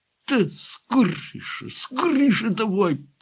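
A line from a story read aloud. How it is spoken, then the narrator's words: Muffled hiss behind door. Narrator (Ukrainian): просичав за дверима Гармаш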